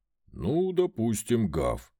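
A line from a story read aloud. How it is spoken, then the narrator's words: Deep-voiced grinning dog. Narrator (Russian): пробасил пес, улыбаясь во всю пасть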